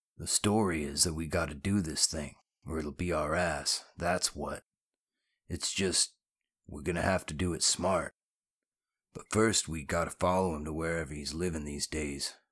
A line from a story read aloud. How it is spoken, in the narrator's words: Griff said grimly